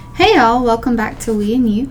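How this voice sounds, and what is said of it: Southern twang. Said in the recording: “Somebody spent too much time in Tennessee. ... Slash Georgia, but yes, in the South. I got my twang back.”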